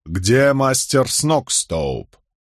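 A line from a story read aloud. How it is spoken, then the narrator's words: Stern question. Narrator (Russian): Я строго вопросил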